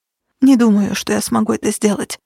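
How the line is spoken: Whisper. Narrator (Russian): прошептала она Минчеросу

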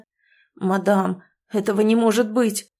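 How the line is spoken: Shocked, breathless exhale. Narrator (Russian): потрясенно выдохнул мужчина

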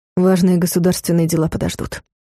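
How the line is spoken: Plain. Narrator (Russian): сказал Дарс

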